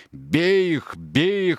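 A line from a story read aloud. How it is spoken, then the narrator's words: Thunderous roar. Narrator (Russian): ревел он громовым голосом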